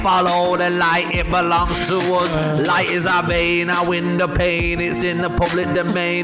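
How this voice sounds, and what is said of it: Put-on R&B jungle-style singing accent. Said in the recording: “What was your accent there? ... I was sort of trying to go for that Lauryn Hill vibe, uh, yeah. bit of R and B mixed with a bit of jungle ... it was sort of the UB40 uh, universal accent”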